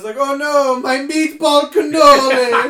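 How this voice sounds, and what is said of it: Put-on Italian accent. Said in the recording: “Italian fucking accent”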